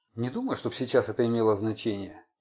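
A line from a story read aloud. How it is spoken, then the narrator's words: Quiet. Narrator (Russian): негромко сказал Макдональд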